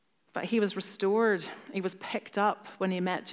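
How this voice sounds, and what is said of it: Usual voice. Nothing is said of it.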